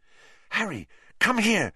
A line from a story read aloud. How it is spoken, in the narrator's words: said urgently